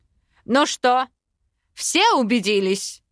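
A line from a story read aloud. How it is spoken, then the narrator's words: Trained barking voice. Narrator (Russian): Хорошо поставленным голосом рявкнул Аринель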